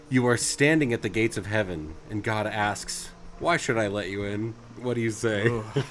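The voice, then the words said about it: Dramatic Dungeon Master narrator voice. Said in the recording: “I kind of read it in my Dungeon Master voice”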